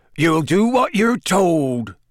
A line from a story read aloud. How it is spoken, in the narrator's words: he growled